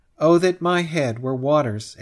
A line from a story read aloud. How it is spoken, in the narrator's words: exclaims Ledger